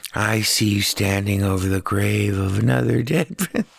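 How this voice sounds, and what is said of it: Soft-spoken John Malkovich impression. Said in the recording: “my impression of John Malkovich ordering a pizza. It's not very good. I never thought it was very good. ... You need to have a lisp. ... he has that very soft Steppenwolf trade delivery”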